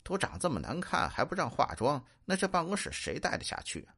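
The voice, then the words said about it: Quiet muttering under breath. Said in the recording (Chinese): “经理又小声嘀咕”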